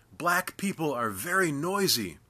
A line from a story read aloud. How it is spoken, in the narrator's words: His assistant grinning, yelled in my ear